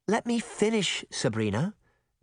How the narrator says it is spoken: Daphne said calmly

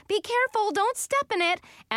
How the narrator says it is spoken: Hunter kept yelling

